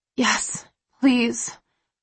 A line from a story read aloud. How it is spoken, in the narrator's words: I breathe, my voice hoarse and needy